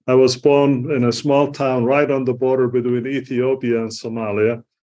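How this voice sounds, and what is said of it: East African accent. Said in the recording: “as you could tell from my accent, I'm originally from East Africa”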